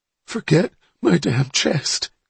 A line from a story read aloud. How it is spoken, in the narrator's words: Donnie gasped